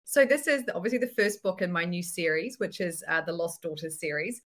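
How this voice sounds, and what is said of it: New Zealand accent. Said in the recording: “I'm in New Zealand, if you haven't been able to tell by my strange accent”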